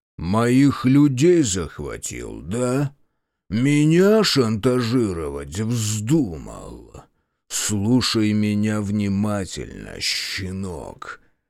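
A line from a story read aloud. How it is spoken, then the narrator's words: Low menacing growl. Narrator (Russian): Его голос снизился до угрожающего рычания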